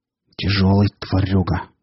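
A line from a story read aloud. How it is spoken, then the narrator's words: Through gritted teeth. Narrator (Russian): процедил Рамир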